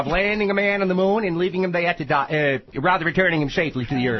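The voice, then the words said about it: John F. Kennedy impression. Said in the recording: “one of the finest Kennedy impressions I have heard on this program”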